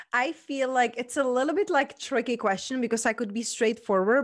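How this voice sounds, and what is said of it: Czech-accented English. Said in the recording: “I'm almost thinking that your heritage is Czech ... You have a beautiful accent”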